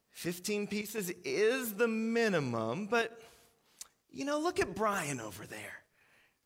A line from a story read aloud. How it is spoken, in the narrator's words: the manager sighs, and he looks exasperated, and he says